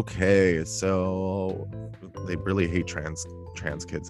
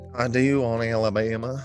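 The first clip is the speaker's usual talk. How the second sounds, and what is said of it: Bad put-on Southern accent. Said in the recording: “what a bad Southern accent I do have.”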